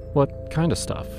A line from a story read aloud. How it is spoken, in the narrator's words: she pressed gently